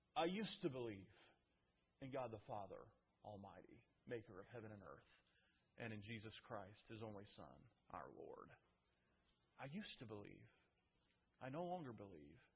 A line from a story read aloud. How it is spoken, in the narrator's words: by mumbling